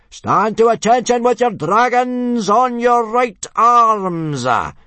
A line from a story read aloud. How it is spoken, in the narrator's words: yelled Gobber the Belch